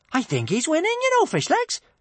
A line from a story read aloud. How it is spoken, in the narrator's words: chirped Kamikaze